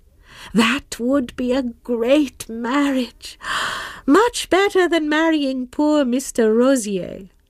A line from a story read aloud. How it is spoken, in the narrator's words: sighed Madame Merle